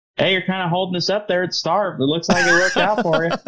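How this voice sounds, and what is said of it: Imitates another person's voice. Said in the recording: “That was my Rod Rippey impression.”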